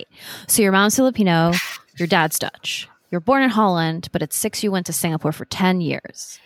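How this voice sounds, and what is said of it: American accent. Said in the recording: “I have an American accent, which I learned from Faith”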